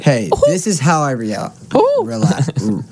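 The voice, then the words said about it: Poor Mickey Mouse cartoon voice. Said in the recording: “your best Mickey Mouse impression ... Mickey Mouse voice ... that was awful”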